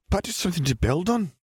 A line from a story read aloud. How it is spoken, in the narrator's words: Minerva pointed out excitedly